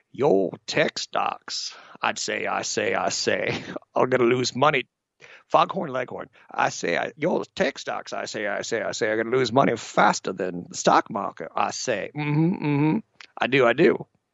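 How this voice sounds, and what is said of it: Exaggerated Southern cartoon rooster voice. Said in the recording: “he had a Southern accent, even though I don't think it was Southern ... Foghorn, Foghorn Leghorn”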